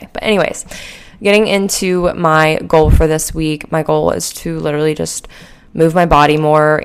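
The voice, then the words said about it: Rough, sleepy-sounding voice. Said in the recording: “I'm very sleepy, and that's why my voice may sound a little rough”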